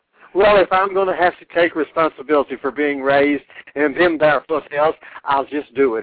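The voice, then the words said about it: Southern Arkansas accent. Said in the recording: “you're breaking out that Arkansas accent already”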